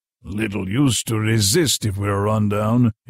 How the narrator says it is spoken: he grunted

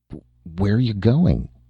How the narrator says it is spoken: She asked hesitantly

